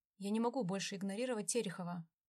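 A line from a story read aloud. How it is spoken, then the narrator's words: Cold tone. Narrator (Russian): сказал он холодным тоном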